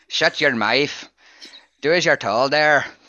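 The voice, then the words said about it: Northern Irish accent, Gerry Adams impression. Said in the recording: “I could do Northern Irish as well, but it ends up being Gerry Adams.”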